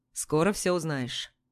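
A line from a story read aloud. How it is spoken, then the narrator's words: Calm. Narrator (Russian): спокойно отзывается Гордей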